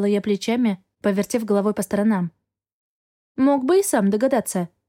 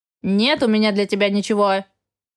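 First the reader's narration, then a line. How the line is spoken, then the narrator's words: Grumbled, unseen speaker. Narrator (Russian): проворчал невидимый собеседник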